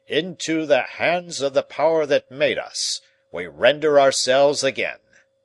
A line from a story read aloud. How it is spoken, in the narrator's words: he shouted in his voice of thunder